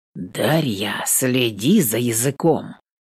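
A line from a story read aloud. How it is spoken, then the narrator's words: Menacing warning. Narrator (Russian): Грозно предупреждает он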